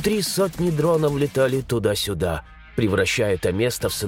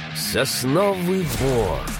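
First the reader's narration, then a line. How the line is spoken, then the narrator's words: Drawl. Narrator (Russian): протянул я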